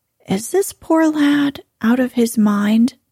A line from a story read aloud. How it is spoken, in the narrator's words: she asked kindly